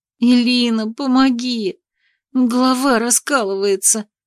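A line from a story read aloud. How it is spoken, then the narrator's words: Suffering plea. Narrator (Russian): Страдальческим голосом попросила я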